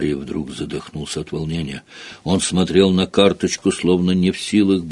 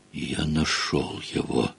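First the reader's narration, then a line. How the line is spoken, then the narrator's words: Whisper. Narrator (Russian): прошептал он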